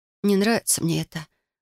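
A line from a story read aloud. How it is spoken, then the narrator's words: Sighing. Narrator (Russian): вздохнула я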